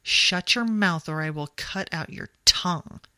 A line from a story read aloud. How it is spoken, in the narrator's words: he spat